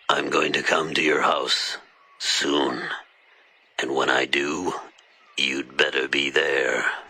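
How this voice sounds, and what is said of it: Deep, scary character voice. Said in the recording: “a deep, scary voice”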